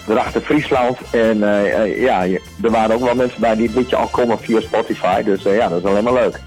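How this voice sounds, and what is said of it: Slight Groningen Dutch accent. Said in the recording (Dutch): “ik hoor een beetje accent. Ik denk dat je ook een beetje uit die kontreinen komt ... Ik ben zelf een Groninger.”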